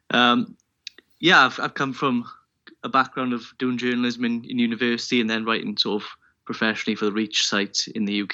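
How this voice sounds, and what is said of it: Welsh accent. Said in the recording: “from the United Kingdom, Wales specifically, as the accent kind of gives away”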